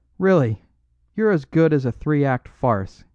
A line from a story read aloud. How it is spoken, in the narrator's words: he cried